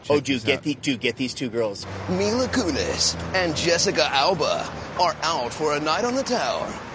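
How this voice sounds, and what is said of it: Epic movie trailer narrator voice. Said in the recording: “Epic movie trailer voice ... the Honest Trailer Voice ... I love that voice.”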